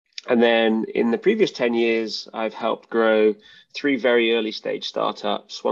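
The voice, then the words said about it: British accent. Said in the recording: “as you can probably tell by my accent. I'm from the UK.”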